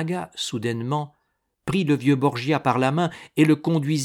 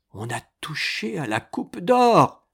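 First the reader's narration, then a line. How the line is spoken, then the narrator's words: Old man's trembling cry. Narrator (French): s'écria le vieux Borgia en tremblant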